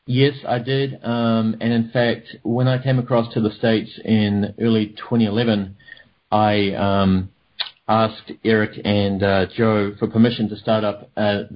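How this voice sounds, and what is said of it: New Zealand accent. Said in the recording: “your accent ... I'm from New Zealand originally.”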